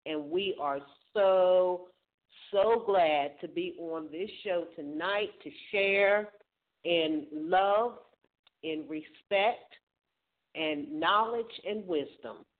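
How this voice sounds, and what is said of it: Excited, upbeat voice. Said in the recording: “I know everybody can hear it in my voice. I'm super excited”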